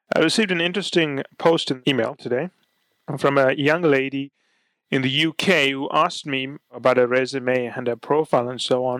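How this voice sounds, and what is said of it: Sick, congested-sounding voice. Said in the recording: “since I picked up my cold a few days ago. It's still with me... I apologize for my voice”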